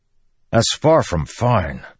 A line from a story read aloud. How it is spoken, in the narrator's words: Dalinar snapped